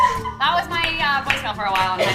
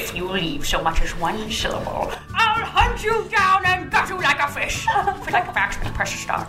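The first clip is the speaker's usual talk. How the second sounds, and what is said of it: Grinch cartoon character voice. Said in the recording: “doing the Grinch voice”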